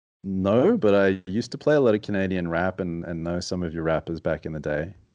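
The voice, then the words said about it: Deep voice, Australian accent. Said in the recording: “you've got a deep, sarcastic voice that comes from Australia with a weird accent.”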